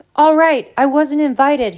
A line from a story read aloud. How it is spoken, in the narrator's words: he said angrily